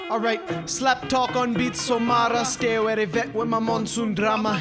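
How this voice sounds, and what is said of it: Usual voice. Nothing is said of it.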